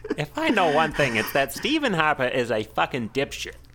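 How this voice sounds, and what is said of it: Put-on Canadian-New York accent mix. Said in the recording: “that's a combo Steve- Canadian New York accent that I'm, uh, I'm working on”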